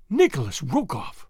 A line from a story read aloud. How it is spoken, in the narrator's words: she exclaimed